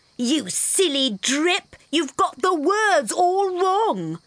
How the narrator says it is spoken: others yelled

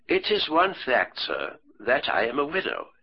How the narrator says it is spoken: she said

